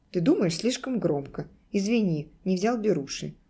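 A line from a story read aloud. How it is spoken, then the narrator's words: Plain. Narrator (Russian): ответил он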